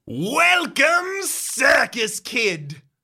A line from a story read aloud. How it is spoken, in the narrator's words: Barbers bellows over the microphone